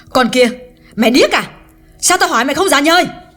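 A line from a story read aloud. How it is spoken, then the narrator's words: Loud harsh scolding. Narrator (Vietnamese): Hương càng lớn tiếng nạt Liễu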